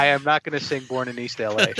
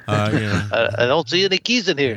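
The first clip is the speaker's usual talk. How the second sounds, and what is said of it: Charles Bronson impression. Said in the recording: “with your Bronson impersonation. It can get close to being a Cheech Marin impersonation”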